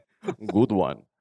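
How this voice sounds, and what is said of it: Deep Eastern European accent. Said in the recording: “said in your deep Eastern European accent”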